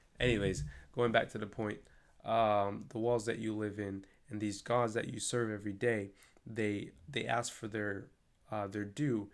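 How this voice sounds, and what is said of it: Worn-out, tired voice. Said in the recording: “my voice is low key done”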